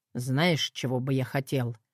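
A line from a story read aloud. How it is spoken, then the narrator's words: Plain. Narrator (Russian): спросил он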